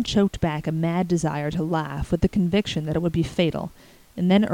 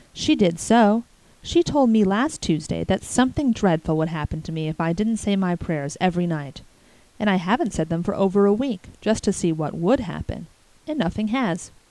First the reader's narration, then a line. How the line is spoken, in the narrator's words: concluded Davy in an aggrieved tone